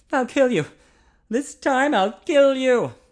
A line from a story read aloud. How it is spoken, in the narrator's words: Ian gasped